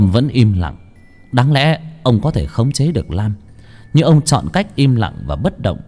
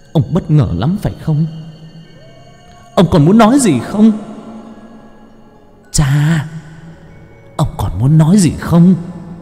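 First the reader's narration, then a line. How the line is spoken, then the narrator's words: Hissing through teeth. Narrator (Vietnamese): Lam rít lên qua kẽ răng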